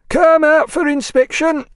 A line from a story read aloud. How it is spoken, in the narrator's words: cried a jailer